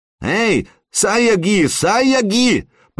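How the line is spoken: Shouting. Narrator (Russian): прокричал Флори

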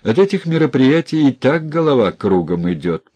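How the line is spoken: Laughing. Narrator (Russian): посмеялся Сельченко

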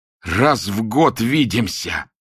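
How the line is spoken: Hoarse shout. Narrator (Russian): хрипло выкрикнул он Клементьеву

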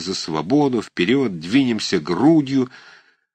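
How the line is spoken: Hoarse ringing cries. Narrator (Russian): вырывались хриплой звонкой

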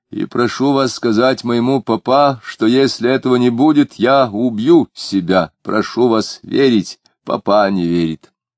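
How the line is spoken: Ringing voice. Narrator (Russian): все так же звонко сказал

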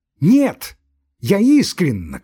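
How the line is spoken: Shout, breathing heavily. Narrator (Russian): крикнула она, тяжело дыша

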